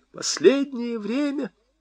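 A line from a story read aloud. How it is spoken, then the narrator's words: Sobbing. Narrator (Russian): всхлипывала она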